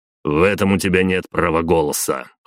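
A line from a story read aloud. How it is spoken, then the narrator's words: Cold curt, emperor. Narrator (Russian): холодно бросил император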